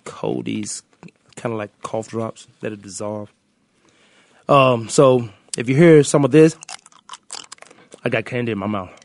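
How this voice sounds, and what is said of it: Stuffy, congested voice. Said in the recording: “I got a cold ... my stuffy voice and sounding voice”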